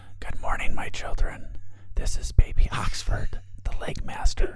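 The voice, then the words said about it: Whispering. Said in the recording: “I had to do this in a whisper voice.”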